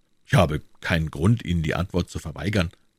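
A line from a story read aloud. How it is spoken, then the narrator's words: Plain. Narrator (German): sagte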